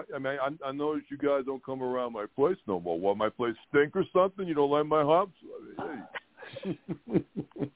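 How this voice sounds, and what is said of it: Imitates another person's voice. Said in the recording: “A pretty good Brad. That is a very good Brad Garrett impersonation. Very good.”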